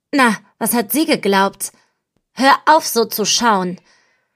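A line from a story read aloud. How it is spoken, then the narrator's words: Furious outburst. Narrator (German): Wut zischt durch meinen ganzen Körper und entlädt sich mit meiner Stimme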